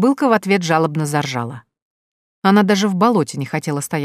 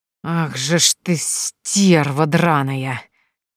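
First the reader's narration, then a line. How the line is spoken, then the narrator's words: Furious hiss. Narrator (Russian): яростно зашипела Евгения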